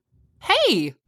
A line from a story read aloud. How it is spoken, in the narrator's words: Katie yelled